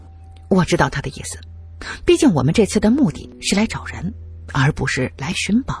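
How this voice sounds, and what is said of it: Usual voice. Nothing is said of it.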